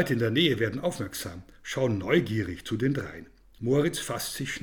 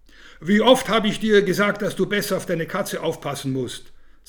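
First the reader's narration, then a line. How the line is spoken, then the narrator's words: Said loudly. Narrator (German): sagt laut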